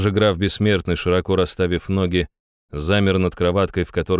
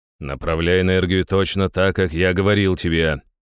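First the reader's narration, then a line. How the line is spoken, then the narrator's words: Displeased grumbling. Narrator (Russian): недовольно ворчал я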